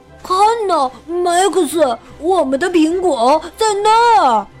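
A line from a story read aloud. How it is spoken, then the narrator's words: Sudden cry. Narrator (Chinese): 亨利一下子叫了起来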